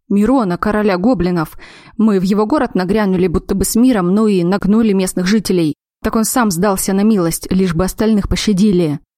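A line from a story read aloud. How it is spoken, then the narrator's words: Pleased smug man. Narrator (Russian): Хмыкнул мужчина, довольный, что успел первым принести хозяину радостную весть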